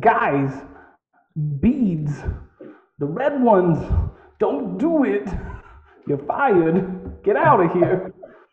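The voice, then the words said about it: Imitates another person's voice. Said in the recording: “a brief quote from Dimming, played by Christopher Walken ... that was almost Bill Cosby there. ... That was a terrible impression. ... That was a good one.”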